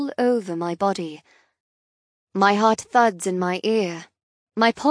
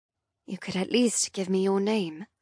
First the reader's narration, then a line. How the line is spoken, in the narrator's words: I mumble